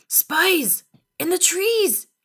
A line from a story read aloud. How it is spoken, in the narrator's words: yelled